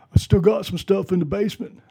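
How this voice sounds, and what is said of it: Imitates a movie character's voice. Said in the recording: “bad Rocky imitation”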